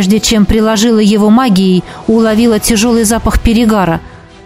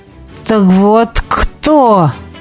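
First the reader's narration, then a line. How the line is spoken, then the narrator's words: Hissed. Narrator (Russian): прошипел он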